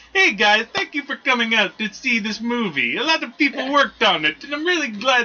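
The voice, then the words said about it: Imitation sounding oddly Italian. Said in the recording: “I'm doing a John Green imitation. That's how it sounds. ... My imitation of him sounds Italian.”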